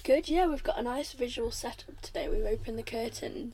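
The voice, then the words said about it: Hoarse, strained voice. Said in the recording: “I'm losing my voice quite badly today.”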